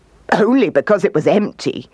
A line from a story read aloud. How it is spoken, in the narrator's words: laughed the kangaroo